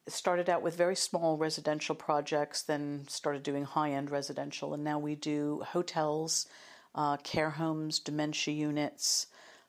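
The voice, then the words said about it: American accent. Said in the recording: “started out in media in the US, as you'll probably hear from my accent.”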